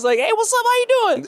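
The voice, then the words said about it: Excited high-pitched voice. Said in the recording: “My voice got a little high pitched too.”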